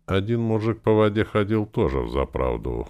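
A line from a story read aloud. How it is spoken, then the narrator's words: Chuckle in the dark. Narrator (Russian): хохотнул в темноте Червяков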